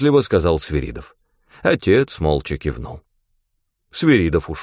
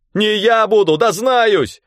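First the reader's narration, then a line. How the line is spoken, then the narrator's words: Shout with breaking voice. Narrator (Russian): крикнул Костя срывающимся голосом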